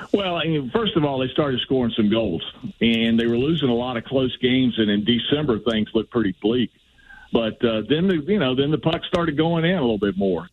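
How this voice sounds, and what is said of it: Southern American accent. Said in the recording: “a guy with a southern accent ... His Southern accent, I can't take it.”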